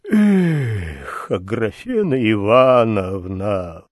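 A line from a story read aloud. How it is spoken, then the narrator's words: Lazy, sighing. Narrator (Russian): повторил он лениво, вздыхая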